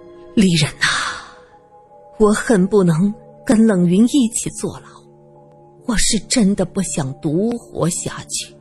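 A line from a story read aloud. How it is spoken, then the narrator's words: Sighing. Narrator (Chinese): 梁仲南叹气说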